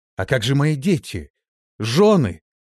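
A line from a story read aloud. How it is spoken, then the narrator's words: Desperate shout. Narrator (Russian): отчаянно закричал я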